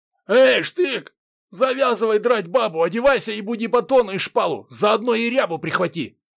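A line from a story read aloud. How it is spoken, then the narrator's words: Yelling. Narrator (Russian): заорал Борис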